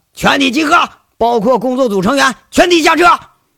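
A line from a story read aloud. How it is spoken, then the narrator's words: Shout over loudspeaker. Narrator (Chinese): 杨伟在扩音喇叭上喊一嗓子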